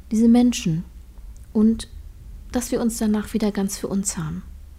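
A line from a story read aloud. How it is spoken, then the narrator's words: Quiet speech. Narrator (German): sagte leise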